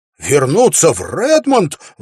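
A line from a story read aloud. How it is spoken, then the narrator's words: Exclaimed. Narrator (Russian): воскликнул Уилл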